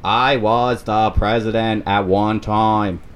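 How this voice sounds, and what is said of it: JFK impression, Boston accent. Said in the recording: “my impersonation of JFK ... That's my JFK.”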